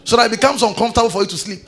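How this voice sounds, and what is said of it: Shouting preacher. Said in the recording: “why I'm shouting like that”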